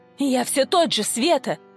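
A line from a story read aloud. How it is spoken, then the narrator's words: Fervent exclamation. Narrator (Russian): с жаром воскликнул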